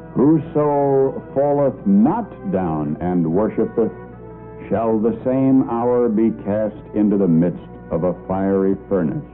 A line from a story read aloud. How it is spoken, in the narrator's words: Slowly and in a loud, clear voice, he said